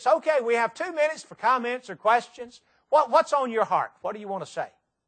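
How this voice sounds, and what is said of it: Tennessee accent. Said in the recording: “Can y'all understand this Tennessee accent?”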